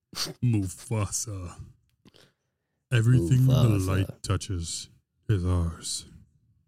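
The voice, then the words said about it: Exaggerated deep Mufasa voice. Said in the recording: “make your voice as deep as it can go right now ... sounds like a fake bass”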